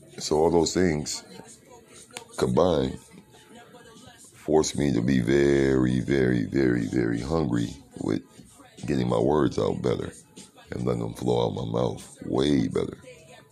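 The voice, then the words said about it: Deep voice, slight lisp, light accent. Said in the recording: “I still slur. I have a lisp. Very thick tongue. ... Deep ass voice. Lightweight accent. Natural one too. I don't force it.”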